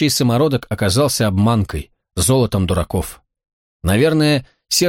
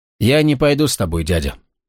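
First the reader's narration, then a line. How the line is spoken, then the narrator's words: Calm. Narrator (Russian): спокойно сказал Гвалиор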